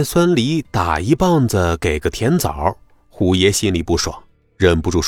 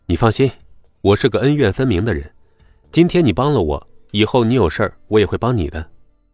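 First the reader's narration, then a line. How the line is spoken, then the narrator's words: Laughing. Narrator (Chinese): 孙离笑道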